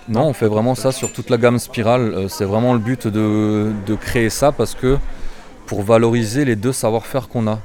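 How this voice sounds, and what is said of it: Slight Alsatian French accent. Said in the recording (French): “j'ai un petit accent alsacien, je suis un peu dur de temps en temps”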